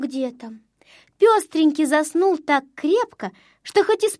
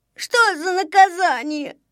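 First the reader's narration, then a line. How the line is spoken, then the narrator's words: Whimpering. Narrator (Russian): захныкал он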